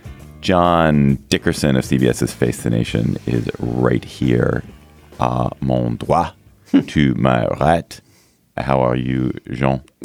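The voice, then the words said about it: Hoarse, froggy voice. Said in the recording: “I'm a little sick, so please excuse any frogginess or hoarseness in my voice.”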